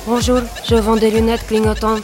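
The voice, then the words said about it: Put-on accent, salesman voice. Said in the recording (French): “Excellent l'accent.”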